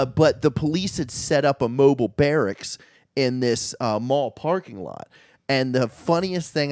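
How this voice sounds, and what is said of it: Usual voice. Nothing is said of it.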